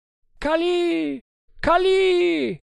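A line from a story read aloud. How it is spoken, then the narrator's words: Crowd yelling. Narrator (Italian): urlarono i Tugs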